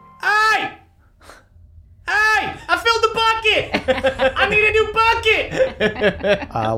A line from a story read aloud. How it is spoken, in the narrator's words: Big Bev just screams